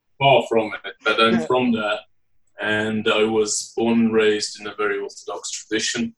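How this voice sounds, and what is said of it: British northern English accent. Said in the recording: “as you may be able to detect by my accent, I was born and raised in the United Kingdom. I'm from the city of Leeds in the northeast”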